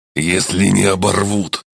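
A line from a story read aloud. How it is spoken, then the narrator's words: Unimpressed snort. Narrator (Russian): хмыкнул немало не впечатленный орк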